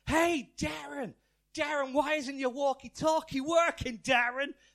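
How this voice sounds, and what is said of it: Put-on American accent. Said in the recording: “That's my best American accent.”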